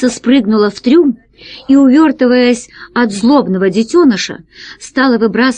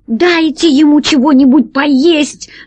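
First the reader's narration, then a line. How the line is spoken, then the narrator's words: Shouted. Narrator (Russian): закричала Алиса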